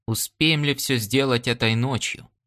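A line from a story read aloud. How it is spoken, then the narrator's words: Calm question. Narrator (Russian): спокойно спросил Ян Дорак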